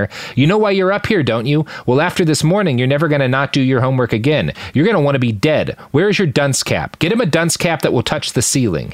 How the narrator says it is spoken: he says

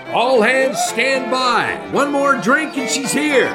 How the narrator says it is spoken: Tom shouted

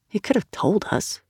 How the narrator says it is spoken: Sal mumbled

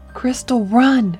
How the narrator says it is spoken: he pleaded

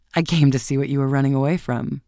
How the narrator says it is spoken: he laughed as he shook her hand and answered

